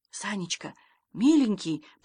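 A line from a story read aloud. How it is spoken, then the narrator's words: Grandmother whispering. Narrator (Russian): почему-то шепотом заговорила бабушка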